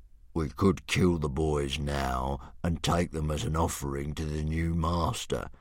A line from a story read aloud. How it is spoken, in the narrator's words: suggested Sea Slug, with a grunt of greedy pleasure